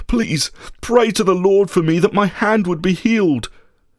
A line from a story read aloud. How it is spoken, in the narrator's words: he begged him